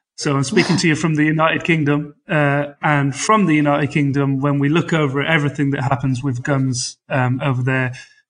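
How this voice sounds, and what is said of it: British accent. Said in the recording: “this is a British accent”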